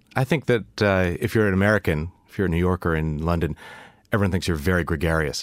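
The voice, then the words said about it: New York accent. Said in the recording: “He's a New Yorker, by the way. Immediately, the accent. ... The accent gives me away. ... you've got that accent?”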